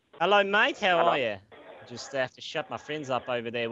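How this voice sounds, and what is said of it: Put-on Australian accent. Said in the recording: “I like the Aussie thing. I haven't had the chance to really properly do the Aussie accent, so I'd like to really give that a shot right now.”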